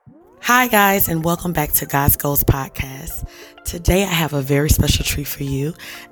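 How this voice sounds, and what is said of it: Slightly hoarse voice. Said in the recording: “I'm a little hoarse”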